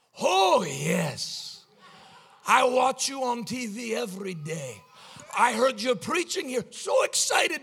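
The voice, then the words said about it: Central African accent drifting into Dracula. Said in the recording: “You know, like Central African, there's so much love when they talk... my accent started to turn into Dracula... Turned into Count Chocula at the end.”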